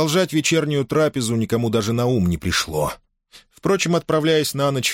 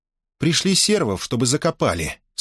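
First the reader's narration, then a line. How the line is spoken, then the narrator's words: Dry, cold princess. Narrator (Russian): сухо проговорила принцесса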